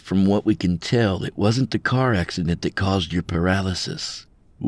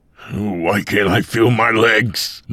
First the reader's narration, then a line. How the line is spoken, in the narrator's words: Mike again cried out